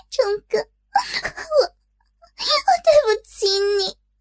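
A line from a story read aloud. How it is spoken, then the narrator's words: Weeping cry. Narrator (Chinese): 莹莹哭泣的喊出了丈夫的名字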